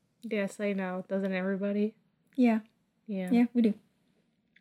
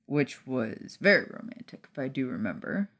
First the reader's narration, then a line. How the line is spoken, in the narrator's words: Remus muttered as he continued to pout over the attack on his masculinity